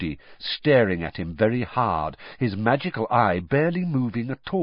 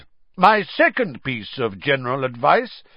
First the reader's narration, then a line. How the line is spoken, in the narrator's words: said, loudly interrupting him